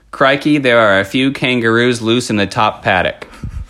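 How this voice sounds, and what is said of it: Australian accent. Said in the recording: “my character has an Aussie accent. Can ... please demonstrate his accent... Australian phrases that you can say to work on the accent”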